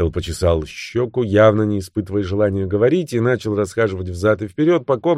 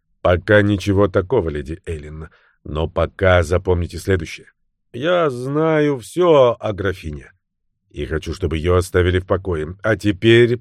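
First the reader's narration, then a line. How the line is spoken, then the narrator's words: Sad tone. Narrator (Russian): печальным тоном закончил суперинтендант Баттл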